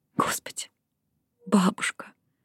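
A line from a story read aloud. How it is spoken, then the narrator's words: Whispered. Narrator (Russian): прошептала она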